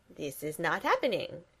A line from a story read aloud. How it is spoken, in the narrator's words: Gru says dryly